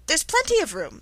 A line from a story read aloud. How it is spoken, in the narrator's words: said Alice indignantly